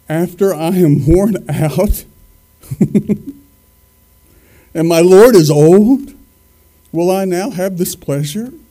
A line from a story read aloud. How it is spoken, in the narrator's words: Sarah laughed to herself as she thought